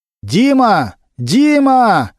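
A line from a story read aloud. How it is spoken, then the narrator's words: Loud shout. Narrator (Russian): громко крикнул Немирович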